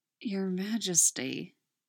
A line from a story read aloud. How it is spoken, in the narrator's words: he mumbles against her neck